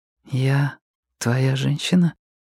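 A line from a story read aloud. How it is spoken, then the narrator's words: Whispered. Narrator (Russian): Пип прошептала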